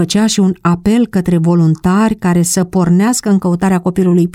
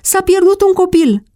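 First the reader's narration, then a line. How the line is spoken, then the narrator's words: Shout among neighbors. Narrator (Romanian): un strigăt printre vecini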